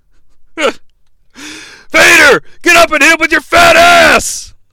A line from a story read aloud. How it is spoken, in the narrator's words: Some overzealous fan yells